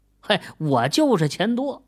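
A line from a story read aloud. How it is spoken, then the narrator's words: Smug boasting. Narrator (Chinese): 莫永兴 继续开口，嘴角带着邪笑 仿佛是在炫耀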